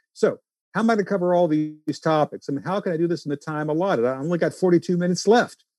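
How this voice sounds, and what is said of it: Louisiana accent. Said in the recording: “talking really fast in my Louisiana accent”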